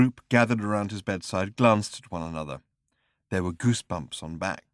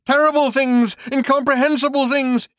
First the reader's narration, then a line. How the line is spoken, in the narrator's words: he shouted